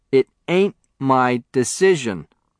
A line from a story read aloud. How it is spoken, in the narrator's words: the foreman stated firmly